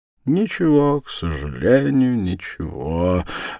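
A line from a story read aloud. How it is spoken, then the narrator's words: Pleasant melodious voice. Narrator (Russian): ответил приятным переливчатым голосом Становой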